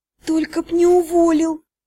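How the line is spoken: Pleading. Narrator (Russian): взмолилась

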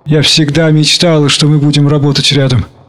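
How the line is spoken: Plain. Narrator (Russian): сказала она

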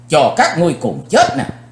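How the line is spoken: Angry loud shout. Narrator (Vietnamese): Chí Tôn tức giận, chàng hét lớn

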